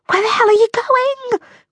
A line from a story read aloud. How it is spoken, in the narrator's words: Grace whispered